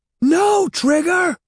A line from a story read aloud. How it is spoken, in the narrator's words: Evan shouted